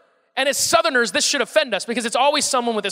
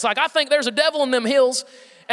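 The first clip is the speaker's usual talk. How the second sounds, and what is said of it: Exaggerated thick Southern accent. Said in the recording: “this really thick Southern accent”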